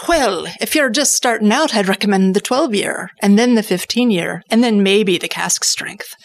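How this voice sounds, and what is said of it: Decent put-on Irish accent. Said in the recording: “that's a pretty decent Irish accent ... That was impressive.”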